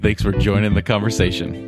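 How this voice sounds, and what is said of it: Polished radio announcer voice. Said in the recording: “That was such a good radio voice.”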